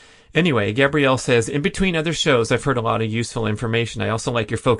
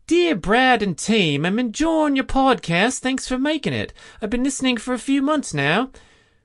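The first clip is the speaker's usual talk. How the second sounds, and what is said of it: Put-on Australian accent. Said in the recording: “How's that for an Aussie accent? I think that was spot on.”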